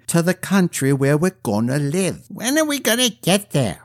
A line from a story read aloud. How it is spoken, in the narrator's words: whined Denome